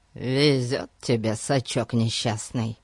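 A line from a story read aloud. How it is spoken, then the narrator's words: Grumbling. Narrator (Russian): проворчал Пип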